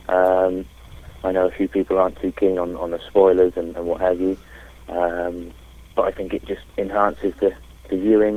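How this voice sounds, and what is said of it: English accent. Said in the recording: “I love the English accent.”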